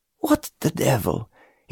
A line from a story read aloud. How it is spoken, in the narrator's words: he began to mutter